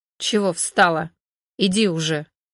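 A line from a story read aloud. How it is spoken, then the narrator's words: Displeased wolf growl. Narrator (Russian): Волк недовольно рыкнул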